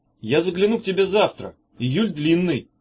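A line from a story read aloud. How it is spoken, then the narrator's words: Shouting. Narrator (Russian): крикнул ей Меф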